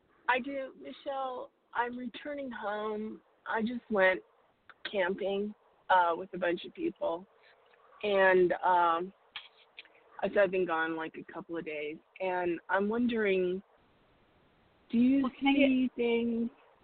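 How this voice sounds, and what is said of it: Congested voice with a cold. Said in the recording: “I have a cold... So I sound a little weird”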